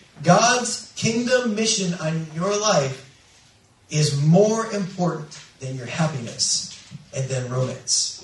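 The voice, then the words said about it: Slow, deliberate emphatic speech. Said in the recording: “I'm saying this slowly. Please pay attention.”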